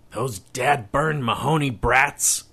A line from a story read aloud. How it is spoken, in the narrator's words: he snarled